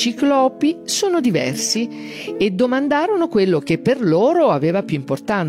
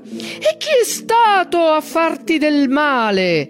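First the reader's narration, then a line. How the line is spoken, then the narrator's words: Ragged roar from ruined throat. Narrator (Italian): Il ciclope la urlò dalle profondità della sua gola devastata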